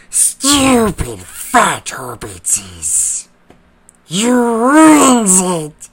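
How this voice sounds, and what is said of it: Raspy creature character voice. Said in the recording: “I'm guessing he's talking about the Gollum voice ... Not bad.”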